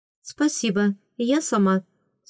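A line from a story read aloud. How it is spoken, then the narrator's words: Plain. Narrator (Russian): сказала ей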